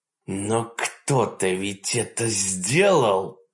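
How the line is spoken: Hiss. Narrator (Russian): прошипел Каннинг

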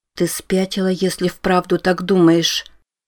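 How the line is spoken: Stunned whisper. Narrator (Russian): ошарашенно прошептала Рози

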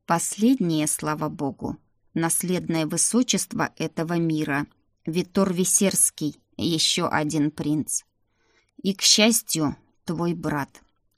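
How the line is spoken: Demon speaking through teeth. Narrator (Russian): сквозь зубы процедил демон

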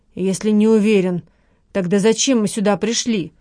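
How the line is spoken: Grumbling woman. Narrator (Russian): проворчала Лола

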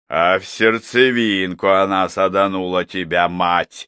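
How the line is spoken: Gleeful laughter. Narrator (Russian): захохотал Епифан, с удовольствием

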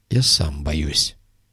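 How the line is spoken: Quiet. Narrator (Russian): тихо произнес тот

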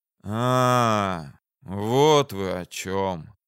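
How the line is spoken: Heavy understanding sigh. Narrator (Russian): вздохнул, понимая, что ищет виновника гибели сына

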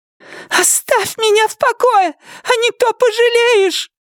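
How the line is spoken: Shrill trembling shriek. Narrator (Russian): визгливо выкрикнула своим тонким дрожащим голосом

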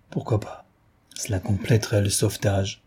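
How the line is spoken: Kind man murmuring softly. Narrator (French): murmurait l'aimable homme à mi-voix

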